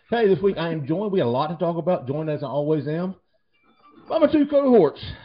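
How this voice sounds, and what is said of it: Out of breath, panting. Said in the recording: “I'm out of breath, dude. Whew.”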